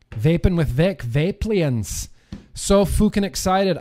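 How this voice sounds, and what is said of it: Put-on Scottish accent. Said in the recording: “That's really more of a Scottish accent that I'm doing now”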